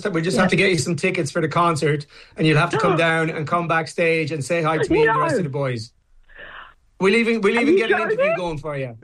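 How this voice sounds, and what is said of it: Irish accent. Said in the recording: “adorable Irish accent”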